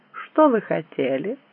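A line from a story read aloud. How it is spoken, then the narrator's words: Young woman, composed, dry question. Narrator (Russian): Девушка тут же вновь обрела утраченное на мгновение самообладание и сухо спросила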